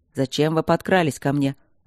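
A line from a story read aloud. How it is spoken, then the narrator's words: Irritated question. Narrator (Russian): раздраженно поинтересовался Кембридж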